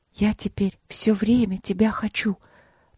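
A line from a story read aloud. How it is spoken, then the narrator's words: Eerie night whisper. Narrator (Russian): призналась она как-то страшным шепотом ночью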